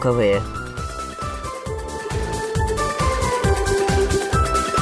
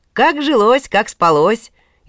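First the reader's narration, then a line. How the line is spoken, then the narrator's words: Cheerful greeting. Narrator (Russian): весело привечал Иван богатыря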